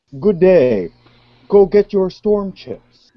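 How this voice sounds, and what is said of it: Exaggerated Ontario accent, over-enunciated. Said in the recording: “This is my Ontario accent. Notice how I enunciate every word and syllable as I talk.”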